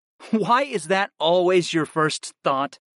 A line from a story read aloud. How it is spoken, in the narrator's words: I laughed